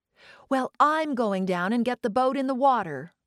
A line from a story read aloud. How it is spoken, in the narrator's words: Joan said